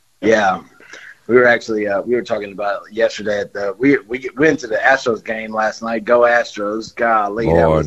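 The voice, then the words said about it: Hoarse, strained voice. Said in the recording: “I'm hoarse. I mean, I'm completely hoarse.”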